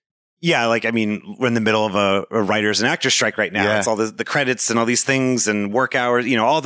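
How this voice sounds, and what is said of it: Usual voice. Nothing is said of it.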